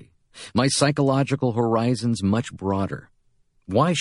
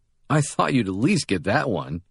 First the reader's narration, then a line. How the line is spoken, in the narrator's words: he laughs